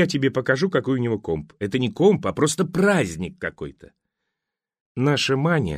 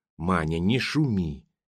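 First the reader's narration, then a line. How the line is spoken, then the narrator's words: Quiet request. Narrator (Russian): негромко попросил Шангирей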